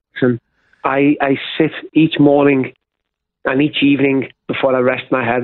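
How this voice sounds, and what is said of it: English Midlands accent. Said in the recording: “they're also loving your accent too ... Nottingham's not too far from where I live”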